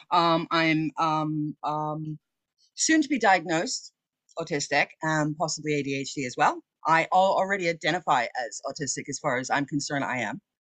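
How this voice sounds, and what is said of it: American accent. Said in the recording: “As you can tell by my accent, I'm American born, but I live over in the UK now.”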